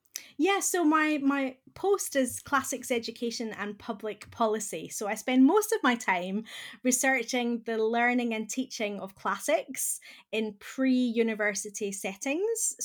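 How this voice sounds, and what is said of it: Scottish accent. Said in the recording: “You'll probably hear from my accent that I'm originally from Scotland”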